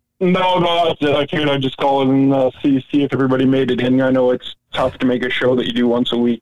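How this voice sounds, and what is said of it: Very thick accent. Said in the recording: “Got the thickest accent in the world.”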